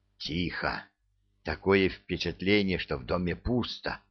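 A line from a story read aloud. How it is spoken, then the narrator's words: Hissing whisper. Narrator (Russian): Свистящим шепотом отвечает темнота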